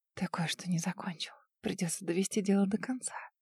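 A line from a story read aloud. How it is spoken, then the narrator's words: Breathless whisper in ear. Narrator (Russian): прерывисто дыша, прошептала на ухо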